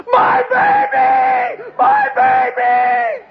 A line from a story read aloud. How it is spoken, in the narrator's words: This crazy lady, screaming